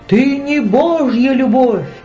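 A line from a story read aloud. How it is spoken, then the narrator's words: Screaming. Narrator (Russian): завопил Исмаил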